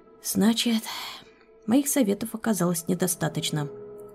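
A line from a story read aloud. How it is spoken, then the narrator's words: Sighing. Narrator (Russian): вздохнул я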